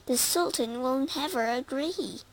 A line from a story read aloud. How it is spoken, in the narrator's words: cried his mother